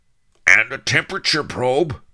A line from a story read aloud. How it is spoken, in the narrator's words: Charlie cried